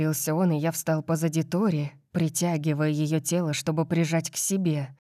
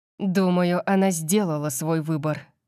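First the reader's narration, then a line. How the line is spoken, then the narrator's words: Gloomy growl. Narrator (Russian): прорычал я хмуро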